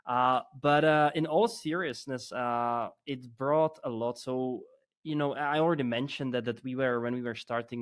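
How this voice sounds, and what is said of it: Czech accent in English. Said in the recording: “I always hear this Czech accent”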